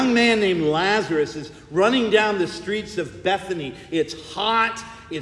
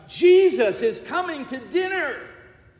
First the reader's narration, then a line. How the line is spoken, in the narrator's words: Lazarus shouts